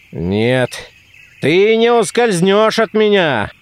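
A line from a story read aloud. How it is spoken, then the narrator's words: Shouted. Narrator (Russian): кричал голова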